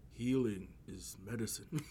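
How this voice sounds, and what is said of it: Imitates father's stoic Native accent. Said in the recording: “I'm gonna put on my my dad's accent... my dad has a super resi accent... the stoic”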